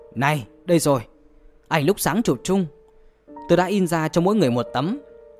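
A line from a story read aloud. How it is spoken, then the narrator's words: Mutter rising to loud voice. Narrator (Vietnamese): Giản Tự Viễn lầu bầu, rồi bỗng cất cao giọng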